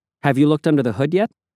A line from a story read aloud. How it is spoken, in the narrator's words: I asked him